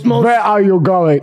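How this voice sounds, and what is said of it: Attempted French accent. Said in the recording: “I can't do a French accent.”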